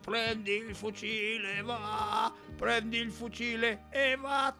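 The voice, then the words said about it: Hoarse, raspy singing voice. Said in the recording (Italian): “Questa voce rauca”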